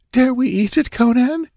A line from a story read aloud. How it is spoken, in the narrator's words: ventured the girl nervously